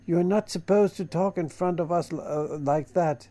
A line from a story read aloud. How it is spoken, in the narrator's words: the girls exclaimed, blushing